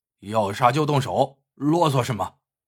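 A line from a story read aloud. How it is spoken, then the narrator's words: Plain. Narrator (Chinese): 安霸天对黄大力说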